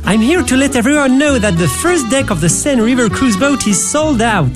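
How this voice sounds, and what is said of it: Put-on French accent. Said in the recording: “that guy with that cool French accent ... random Frenchman”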